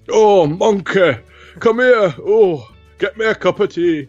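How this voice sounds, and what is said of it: Imitates another person's voice, northern accent. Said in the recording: “all I can think of is Johnny Vegas and the PG tips ... what accent are you doing ... it is a northern accent”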